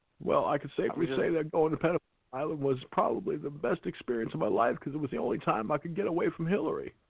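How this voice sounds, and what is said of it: Imitates another person's voice. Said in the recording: “if Bill Clinton is what you want to hear ... impersonation”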